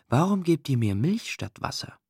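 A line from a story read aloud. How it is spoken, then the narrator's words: Very faint whisper. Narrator (German): flüsterte sie wenigstens ganz leise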